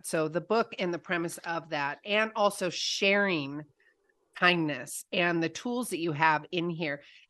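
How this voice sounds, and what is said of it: Slightly hoarse, throaty voice. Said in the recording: “I've got a little frog in my throat this morning ... Let me clear my throat”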